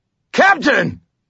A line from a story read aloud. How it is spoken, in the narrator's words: I shouted